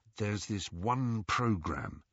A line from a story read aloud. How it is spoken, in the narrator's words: he told Harry in a low voice